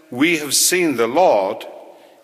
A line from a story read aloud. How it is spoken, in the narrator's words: he answered